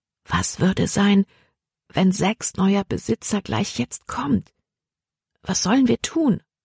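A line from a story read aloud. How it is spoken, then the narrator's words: Said softly. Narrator (German): sagte sie leise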